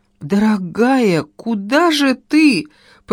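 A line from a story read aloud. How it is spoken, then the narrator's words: Babbling. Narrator (Russian): пролепетал Петюня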